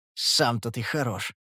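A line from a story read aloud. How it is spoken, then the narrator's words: Snapping. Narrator (Russian): огрызнулся Моффит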